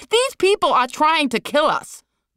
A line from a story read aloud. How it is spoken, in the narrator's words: Liz screamed